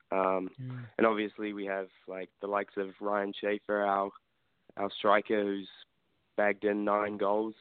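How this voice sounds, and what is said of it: Slight New Zealand accent. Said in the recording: “just a hint of an accent there. You are from Auckland, New Zealand”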